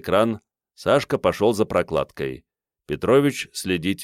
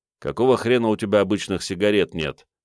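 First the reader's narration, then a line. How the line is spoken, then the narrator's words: Gloomy question. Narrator (Russian): мрачно поинтересовался Игорь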